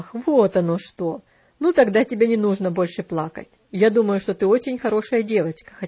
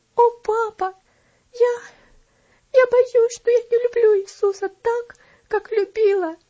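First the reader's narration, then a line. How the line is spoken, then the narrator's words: Speaking through sobs. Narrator (Russian): проговорила она сквозь всхлипывание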